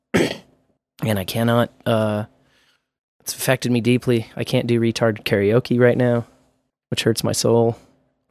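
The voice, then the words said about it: Hoarse, strained voice. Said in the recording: “I'm fucking recovering from some laryngitis. some Larry's gina fucking hit my throat.”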